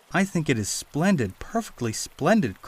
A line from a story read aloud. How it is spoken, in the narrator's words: cried Peter